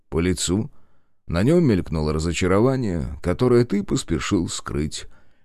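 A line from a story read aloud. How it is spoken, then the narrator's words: Slightly bored reply. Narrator (Russian): ответил Сергей немного скучающим тоном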